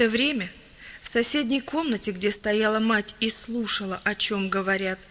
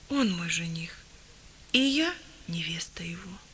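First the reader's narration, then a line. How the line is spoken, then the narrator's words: Quiet, embarrassed. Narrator (Russian): тихо, словно смутившись, произнесла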